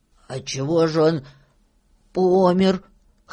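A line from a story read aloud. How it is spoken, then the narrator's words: Hoarse question. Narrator (Russian): хрипло спросил Филька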